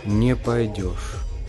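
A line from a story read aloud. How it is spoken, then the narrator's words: Sighing statement, not question. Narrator (Russian): вздохнул дудочник, и это был уже не вопрос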